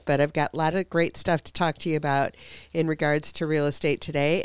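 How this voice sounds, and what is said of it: Voice affected by a cold. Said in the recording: “you can probably hear it in my voice. I'm just getting over this cold”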